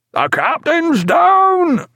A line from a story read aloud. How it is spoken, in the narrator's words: shrieked Davies